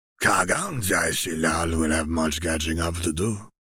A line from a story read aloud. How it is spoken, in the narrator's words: the shaman rasps quietly, purely amused